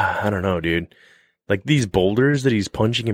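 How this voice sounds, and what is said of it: Usual voice. Nothing is said of it.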